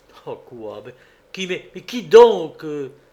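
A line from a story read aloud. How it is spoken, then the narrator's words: Exclaiming. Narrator (French): s'écria le cacheux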